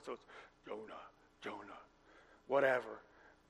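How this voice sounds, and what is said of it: Deep booming God voice. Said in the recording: “You always think God's got a real deep voice.”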